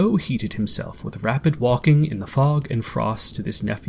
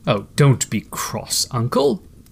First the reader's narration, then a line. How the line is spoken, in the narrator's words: said the nephew